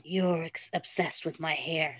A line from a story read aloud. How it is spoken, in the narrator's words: Styles muttered tiredly into Derek's skin